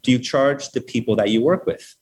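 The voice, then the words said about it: Imitated thick Hebrew accent. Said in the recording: “she asked me in this really thick Hebrew accent”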